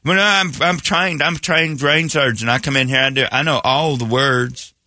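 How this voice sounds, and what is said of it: Put-on accent sounding unintelligent. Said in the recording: “You don't want that accent ever around anything. You need to be smart.”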